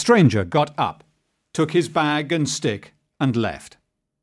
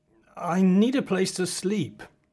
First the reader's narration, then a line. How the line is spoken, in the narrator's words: said the stranger nervously